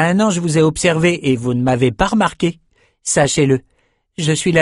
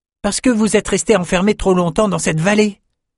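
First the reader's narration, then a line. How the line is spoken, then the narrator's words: Exclaimed. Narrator (French): s'écria Chardon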